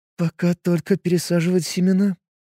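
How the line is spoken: Sad reply, scientist. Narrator (Russian): грустным голосом ответила ученая

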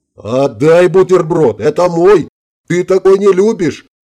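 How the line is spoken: Yelling while falling. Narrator (Russian): орал он на лету, падая в воду

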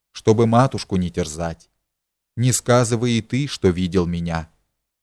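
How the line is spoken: Quiet reply. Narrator (Russian): тихо ответила бывшая княгиня Тугаева

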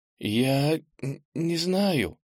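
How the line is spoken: Stammering. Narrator (Russian): запинаясь, сказала Ира

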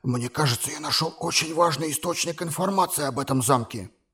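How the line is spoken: Quiet confidential tone. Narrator (Russian): заговорил Куза тихим конфиденциальным тоном

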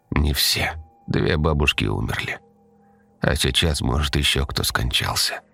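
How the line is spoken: Mother's quiet reply. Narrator (Russian): тихо ответила ей мать

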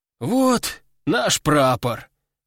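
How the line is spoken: Relieved sigh. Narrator (Russian): облегченно вздохнули бойцы

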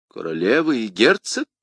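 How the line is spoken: Exclaiming. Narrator (Russian): воскликнул Ришелье

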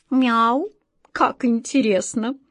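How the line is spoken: Slow reading aloud. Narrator (Russian): Кот Васька медленно прочел

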